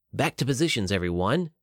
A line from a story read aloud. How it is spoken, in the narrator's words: whispered loudly